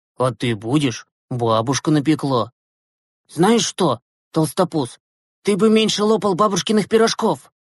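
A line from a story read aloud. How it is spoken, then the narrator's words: Angry. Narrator (Russian): Зло ответил Глеб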